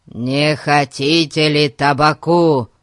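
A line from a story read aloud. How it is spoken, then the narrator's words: Roared. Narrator (Russian): проревел Гун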